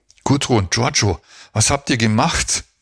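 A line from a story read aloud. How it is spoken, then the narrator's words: Panting question. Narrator (German): fragte keuchend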